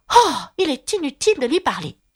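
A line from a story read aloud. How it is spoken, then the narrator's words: Desperate exclamation. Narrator (French): s'exclama Alice en désespoir de cause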